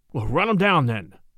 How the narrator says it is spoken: Charlie exclaimed

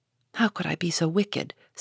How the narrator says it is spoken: said Jo, half aloud

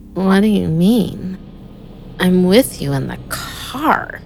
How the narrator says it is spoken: slurred

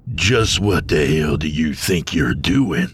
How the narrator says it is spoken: Ionios growled

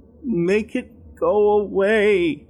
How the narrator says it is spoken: he timidly whined

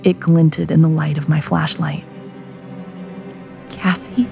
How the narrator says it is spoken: I whispered

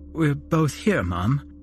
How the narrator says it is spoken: I answered tearfully

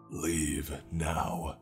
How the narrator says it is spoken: I growled

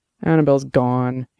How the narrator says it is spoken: he said miserably

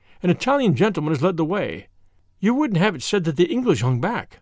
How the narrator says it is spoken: said Frank very warmly

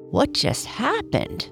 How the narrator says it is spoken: Bobby the Blue Jay exclaimed out loud

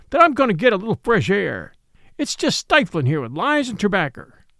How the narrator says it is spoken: said hysterically

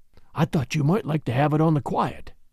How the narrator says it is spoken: he whispered

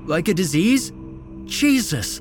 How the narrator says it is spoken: Esteban sputtered

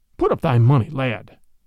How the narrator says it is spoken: cried the other quickly

